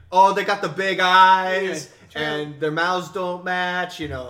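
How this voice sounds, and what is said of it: Put-on New Jersey accent. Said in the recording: “That was a nice Jersey impersonation”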